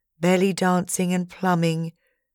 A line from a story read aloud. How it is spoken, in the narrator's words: he sighed